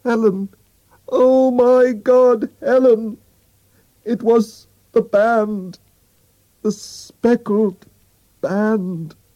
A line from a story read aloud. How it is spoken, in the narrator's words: cried out in a terrible voice